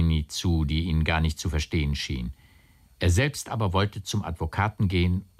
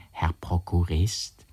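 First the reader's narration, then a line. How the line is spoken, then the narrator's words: Quiet address. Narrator (German): sprach ihn der Kaufmann mit leiser Stimme an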